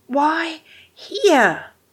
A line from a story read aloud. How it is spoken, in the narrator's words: Rodney gasped